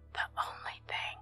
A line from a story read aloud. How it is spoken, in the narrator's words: said she